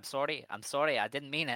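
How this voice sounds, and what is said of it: Put-on accent, done well. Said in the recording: “Your fucking accent! ... That was so good.”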